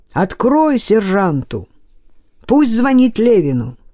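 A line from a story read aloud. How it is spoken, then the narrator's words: Shouting. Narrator (Russian): Назаров крикнул Илье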